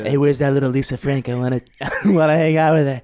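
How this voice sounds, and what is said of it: Imitates another person's voice. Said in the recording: “That impression is too close... Oh god, Donald Trump.”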